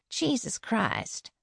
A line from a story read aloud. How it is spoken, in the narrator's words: Faith muttered